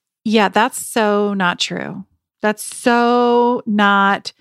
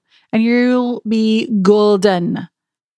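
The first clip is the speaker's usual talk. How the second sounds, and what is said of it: Put-on Scottish accent. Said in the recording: “I don't know why I decided to try and do a Scottish accent.”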